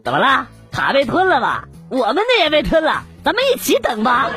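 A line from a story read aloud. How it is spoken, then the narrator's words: Chuckling bystanders. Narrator (Chinese): 旁边几个人嘿嘿的笑着说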